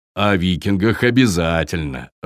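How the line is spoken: Laughing. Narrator (Russian): рассмеялся Таппи

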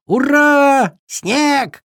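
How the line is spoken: Crowd shouting. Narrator (Russian): кричали все

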